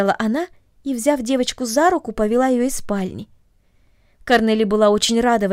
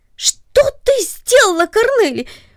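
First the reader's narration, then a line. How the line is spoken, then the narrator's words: Startled cry. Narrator (Russian): вскрикнул он от внезапного удивления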